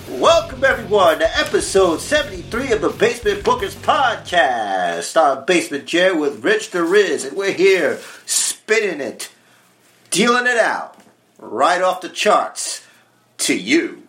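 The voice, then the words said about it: Radio DJ voice. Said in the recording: “it's my DJ voice.”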